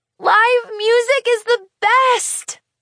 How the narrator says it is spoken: Charlie laughs

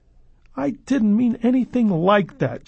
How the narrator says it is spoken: she cried

